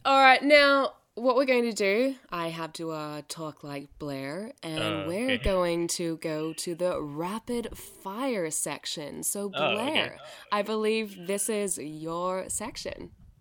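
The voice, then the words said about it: Put-on North American accent. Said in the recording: “Your American accent is awesome. ... Canadian. ... That Canadian. Wasn't Canadian. That was American. ... You could pull that off as a North American accent”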